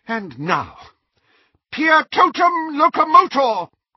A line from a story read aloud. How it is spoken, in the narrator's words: cried Professor McGonagall